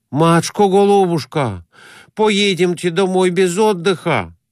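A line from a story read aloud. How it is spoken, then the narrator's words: Pleading. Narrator (Russian): Взмолился Конурин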